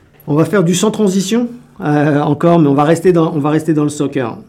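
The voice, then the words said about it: Slight accent. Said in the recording (French): “vous l'entendrez à mon petit accent”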